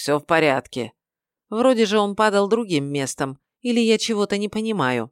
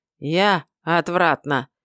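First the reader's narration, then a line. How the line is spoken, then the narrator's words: Pained grumble. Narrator (Russian): буркнул потомок горных жителей, держась за поясницу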